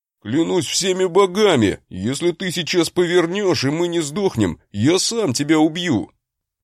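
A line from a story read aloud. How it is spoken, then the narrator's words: Frightened halting yelling. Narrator (Russian): Орал брат с паузами явно боясь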